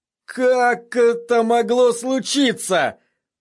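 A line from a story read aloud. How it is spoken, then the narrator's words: Moaning. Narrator (Russian): простонал сир Харрис Свифт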